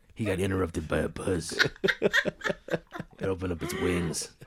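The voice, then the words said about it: Imitates another person's voice. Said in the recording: “my Will Arnett impression ... It's good. ... it's pretty good.”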